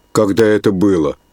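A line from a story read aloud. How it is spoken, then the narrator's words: Plain question. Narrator (Russian): спросил староста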